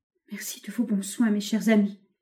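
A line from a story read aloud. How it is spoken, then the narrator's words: Stammered with heartbreaking smile. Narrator (French): balbutia André avec un navrant sourire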